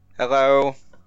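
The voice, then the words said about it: Robot voice. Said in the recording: “that was my robot voice.”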